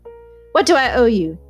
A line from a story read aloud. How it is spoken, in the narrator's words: demanded Tom harshly